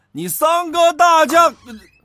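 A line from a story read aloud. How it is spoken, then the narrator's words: Shouting, cut off. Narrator (Chinese): 他一嗓子没叫唤完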